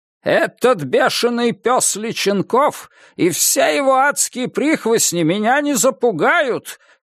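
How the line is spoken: Shouting televised address. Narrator (Russian): кричал Виткунес в телеобращении к нации

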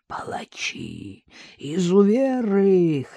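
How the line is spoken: Hoarse wheezing. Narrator (Russian): хрипел Григорий

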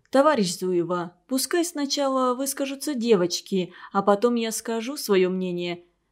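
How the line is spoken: Gentle interruption. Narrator (Russian): мягко остановила ее директор

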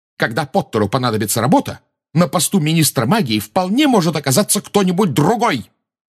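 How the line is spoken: Shouting. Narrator (Russian): выкрикнула МакГонагалл

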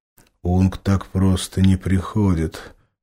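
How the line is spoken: Gloomy big man. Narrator (Russian): мрачно ответил здоровяк

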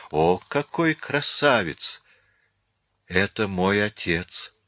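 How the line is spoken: Hoarse breathless voice. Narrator (Russian): выдохнула Марианна севшим голосом

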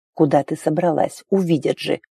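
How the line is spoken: Hoarse rasp. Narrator (Russian): прохрипел Арн

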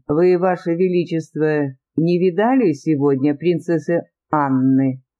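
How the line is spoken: Plain. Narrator (Russian): спросил он

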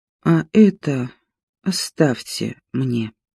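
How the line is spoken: Weak, uncertain voice. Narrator (Russian): она каким-то абсолютно интуитивно, не слишком понимая, зачем и, в общем-то, о чем, сказала слабым голосом

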